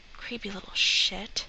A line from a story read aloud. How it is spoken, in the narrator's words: The guy is muttering under his breath